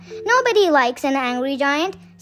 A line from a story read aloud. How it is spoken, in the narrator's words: said Kipper